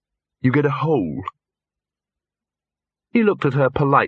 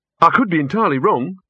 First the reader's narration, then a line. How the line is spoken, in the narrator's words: he said quickly